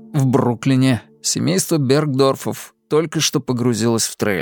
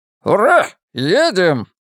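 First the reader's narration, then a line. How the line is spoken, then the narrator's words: Excited yell. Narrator (Russian): завопил Стивен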